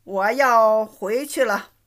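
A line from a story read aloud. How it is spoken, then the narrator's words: Long sigh. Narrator (Chinese): 袭人长叹一声，说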